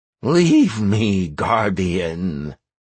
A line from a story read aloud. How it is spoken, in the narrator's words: croaked the Wove